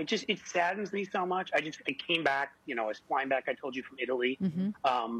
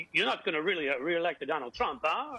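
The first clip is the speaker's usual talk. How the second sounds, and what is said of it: Put-on Italian Chef Boyardee accent. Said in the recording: “in your best Chef Boyardee accent ... I did it in my Chef Boyardee.”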